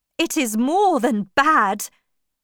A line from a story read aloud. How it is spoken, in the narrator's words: he cried